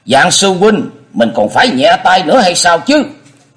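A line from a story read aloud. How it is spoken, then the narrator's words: Angry loud shout. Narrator (Vietnamese): Thạch Xuyên bực quá, giọng quát lớn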